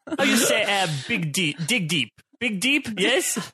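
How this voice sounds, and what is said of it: Put-on mixed European accent. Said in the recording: “without the accent ... you swapped accents like 4 times ... I was just representing the general continent of Europe”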